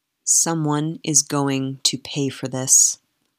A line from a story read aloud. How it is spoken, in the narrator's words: the Duke said